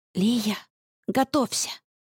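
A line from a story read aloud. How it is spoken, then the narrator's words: Whisper. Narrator (Russian): прошептала я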